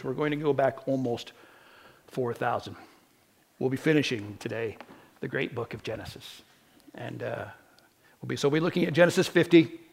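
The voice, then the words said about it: Strained, hoarse voice from a cold. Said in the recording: “My voice is already going... I think I've got a cold.”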